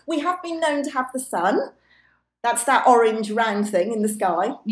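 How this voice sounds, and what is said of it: Loud voice, British accent. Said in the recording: “I've got a loud voice, probably. ... And a British accent, you know. ... It is real. It is real. ... I'm British, just in case you can't tell from the accent.”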